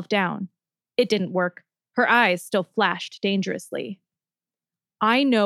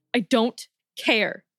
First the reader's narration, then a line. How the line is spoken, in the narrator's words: Nejma growled